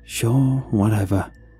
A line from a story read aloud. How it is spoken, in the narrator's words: he sighed in acceptance